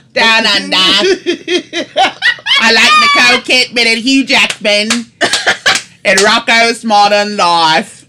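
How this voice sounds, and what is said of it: Put-on Australian accent. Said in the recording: “do an Australian accent ... Let me do it for you, eh?”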